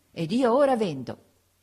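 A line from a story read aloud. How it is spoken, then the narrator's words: Triumphant exclamation. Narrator (Italian): esclamai trionfalmente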